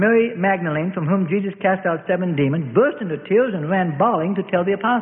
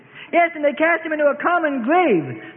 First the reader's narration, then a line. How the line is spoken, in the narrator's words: the Mary of James and Joses wailed